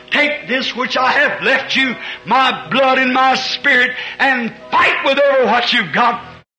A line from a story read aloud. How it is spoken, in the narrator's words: he screams to his church